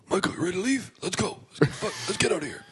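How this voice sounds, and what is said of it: Imitates another person's voice. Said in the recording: “bang-on impression of Michael Marius ... pretty good impression of Uncle Marius”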